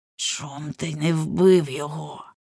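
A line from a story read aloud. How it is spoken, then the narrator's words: Close, weary hiss. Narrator (Ukrainian): просичала вона, у притул підсуваючи своє зморене обличчя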